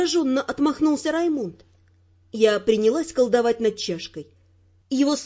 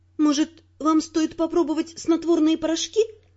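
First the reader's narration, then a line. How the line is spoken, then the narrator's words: Timid. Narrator (Russian): робко посоветовала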